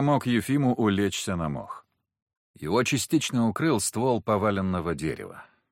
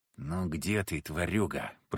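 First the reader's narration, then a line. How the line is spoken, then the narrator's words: Whispered. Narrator (Russian): прошептал я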